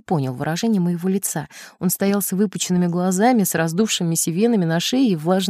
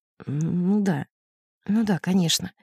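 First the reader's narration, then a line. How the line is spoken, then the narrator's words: Hollow, muffled reply. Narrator (Russian): Глухим голосом он ответил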